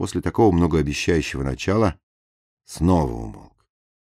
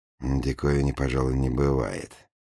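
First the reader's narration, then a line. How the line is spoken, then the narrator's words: Mutter. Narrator (Russian): пробормотал Петров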